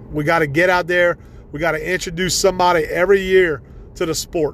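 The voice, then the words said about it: Excited, pumped-up energetic voice. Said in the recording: “I'm excited, guys. I'm really – you can hear it in my voice. I'm pumped up still. I'm passionate about it, and I'm really fired up.”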